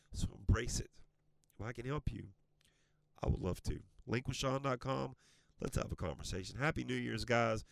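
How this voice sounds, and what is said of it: Strained, worn-out voice. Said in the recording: “My voice is all tracked up”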